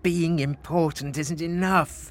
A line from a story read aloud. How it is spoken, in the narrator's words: moaned Frederick